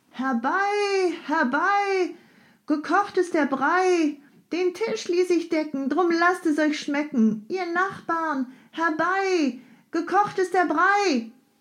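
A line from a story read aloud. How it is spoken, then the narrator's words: Old woman's singsong call. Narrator (German): Eine alte Frau schaute heraus und rief mit singender Stimme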